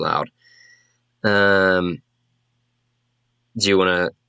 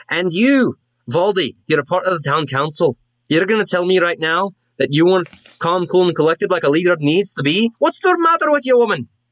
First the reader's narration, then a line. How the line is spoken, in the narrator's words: There's just a lot of yelling going on, and you're about 100 yards off, but you can hear her yelling